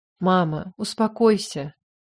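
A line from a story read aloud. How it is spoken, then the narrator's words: Weary voice. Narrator (Russian): произнес, и голос его звучал устало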